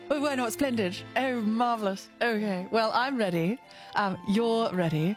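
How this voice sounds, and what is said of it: Put-on refined English accent. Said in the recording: “You probably speak with a more refined accent ... I wonder how long I can keep this accent up ... it is a little weird that you're doing that accent”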